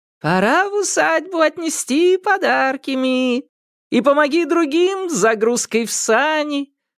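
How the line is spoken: Sing-song speech. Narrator (Russian): нараспев проговорил подморозовик Соль

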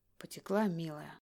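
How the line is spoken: Tender whisper. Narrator (Russian): нежно шепчет он

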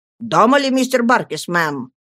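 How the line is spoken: Deliberately gruff question. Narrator (Russian): спросил нарочно грубым голосом

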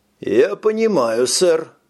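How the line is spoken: Muffled voice. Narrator (Russian): глухо произнес Пит

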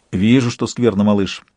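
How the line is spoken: Plain. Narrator (Russian): сказал Сварог

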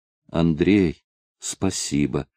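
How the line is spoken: Quiet, pitiful. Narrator (Russian): тихо и жалостливо проговорила она

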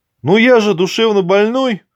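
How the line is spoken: Hesitant reply after laughing. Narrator (Russian): наконец ответил Артем Ухарев, суетливо поглаживая щеки, которые порядочно напряглись от неуемного хохота

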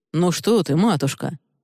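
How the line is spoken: Courteous tone. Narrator (Russian): отвечает Алистар любезным тоном

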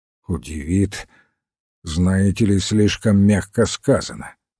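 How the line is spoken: Gloomy reply. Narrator (Russian): мрачно ответил Пейн

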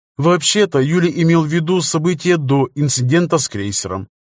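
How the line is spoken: Plain. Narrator (Russian): сказала Пенелопа

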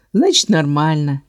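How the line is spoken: Joyless snort. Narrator (Russian): невесело хмыкнул Кэлз

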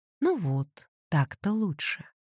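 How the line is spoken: Soft. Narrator (Russian): мягко сказала

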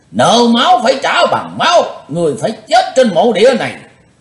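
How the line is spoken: Shouting in unison. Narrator (Vietnamese): Năm tên ma đầu đồng quát

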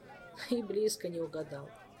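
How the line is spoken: Sad wry smile. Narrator (Russian): печально усмехнулся Элмар

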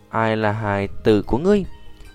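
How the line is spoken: Slightly displeased. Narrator (Vietnamese): Cổ Nguyên khẽ cau mày nói

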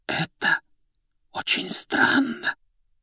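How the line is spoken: Whisper. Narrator (Russian): почему-то шепотом произнесла та

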